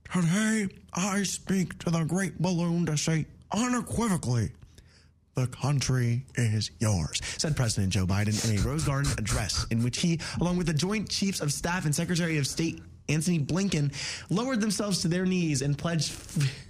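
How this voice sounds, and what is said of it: Imitates another person's voice. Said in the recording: “That was a pretty good impression, by the way.”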